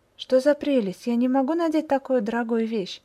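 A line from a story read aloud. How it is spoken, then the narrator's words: Exclamation. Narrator (Russian): воскликнула Тенна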